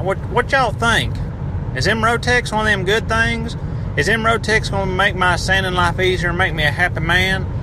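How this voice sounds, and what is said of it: Put-on Appalachian accent. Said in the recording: “I hope that accent got me on there ... I have insulted everyone in the Appalachian region”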